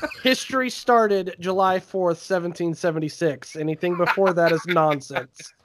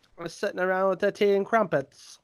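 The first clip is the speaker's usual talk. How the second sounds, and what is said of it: Bad put-on British accent. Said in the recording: “Terrible accent. ... it's a terrible place to live. It deserves a terrible accent.”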